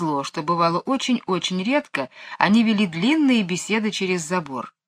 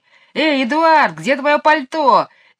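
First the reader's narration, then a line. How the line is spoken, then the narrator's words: Shouted, mocking shrill voice. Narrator (Russian): крикнул Майкл, стараясь передразнить высокий визгливый голос мисс Ларк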